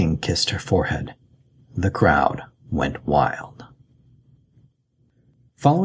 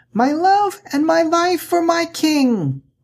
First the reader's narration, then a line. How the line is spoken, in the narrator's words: The child grinned and shouted